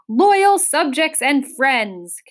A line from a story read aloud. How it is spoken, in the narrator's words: continued Azaz, his voice echoing in the almost empty room